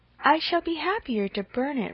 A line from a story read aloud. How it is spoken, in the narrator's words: replied Harriet